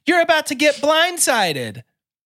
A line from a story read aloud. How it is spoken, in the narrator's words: Kevin taunts Jeff from the shadows, shouting